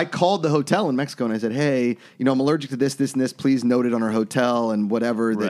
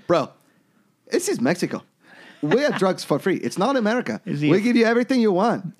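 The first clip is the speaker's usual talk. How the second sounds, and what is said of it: Weak put-on foreign accent. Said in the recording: “Is he a French national? ... My accent work is lacked.”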